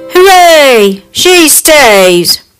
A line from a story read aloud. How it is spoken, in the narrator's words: the dwarf shouted